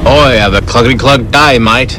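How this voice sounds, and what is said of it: Put-on Australian accent. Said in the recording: “just do the Australian accent”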